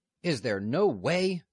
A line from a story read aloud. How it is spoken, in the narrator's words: Newt exclaimed furiously